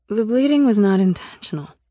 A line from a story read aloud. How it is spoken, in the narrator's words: I said